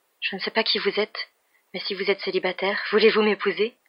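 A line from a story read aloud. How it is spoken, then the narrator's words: Murmuring. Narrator (French): murmura-t-elle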